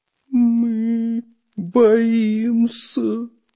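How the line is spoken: Trembling, fearful voice. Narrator (Russian): дрожащим голосом проговорил Прутик

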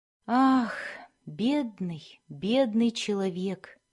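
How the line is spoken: Quiet. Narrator (Russian): произнес тихо

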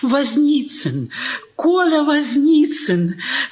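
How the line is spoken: Joyful exclamation. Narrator (Russian): Радостно воскликнула

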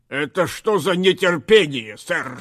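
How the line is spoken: Stern fairy rebuke. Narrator (Russian): строго выговорила королю великая фея Синемора

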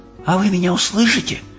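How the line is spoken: Whispered. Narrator (Russian): шепотом поинтересовалась Софи

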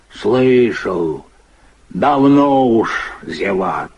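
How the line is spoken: Calm confirmation. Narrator (Russian): спокойно подтверждает Тюлин

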